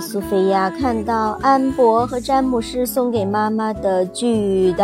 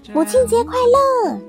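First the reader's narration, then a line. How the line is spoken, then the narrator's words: Shout. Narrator (Chinese): 苏菲亚 大喊道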